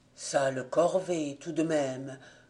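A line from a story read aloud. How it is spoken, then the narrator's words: Murmured in French. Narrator (French): murmura en français l'un d'eux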